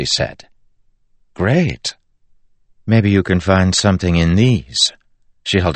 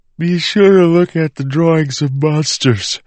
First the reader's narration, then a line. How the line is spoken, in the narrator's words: Marcy said, yawning